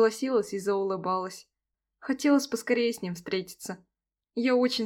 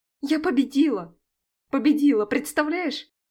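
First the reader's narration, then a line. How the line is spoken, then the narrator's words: Joyful shouting into phone. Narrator (Russian): кричала я от радости прямо в трубку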